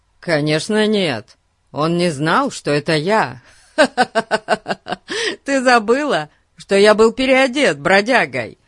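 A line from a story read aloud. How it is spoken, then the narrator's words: Laughing. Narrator (Russian): Рассмеялся Фати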